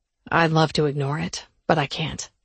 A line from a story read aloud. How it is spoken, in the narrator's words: he groaned